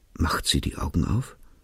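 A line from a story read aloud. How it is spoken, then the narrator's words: Very quiet question. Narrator (German): fragte er ganz leise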